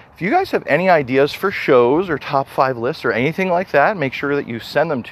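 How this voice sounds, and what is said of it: Slightly out of breath. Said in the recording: “running out of breath a little. That was a pretty steep hill”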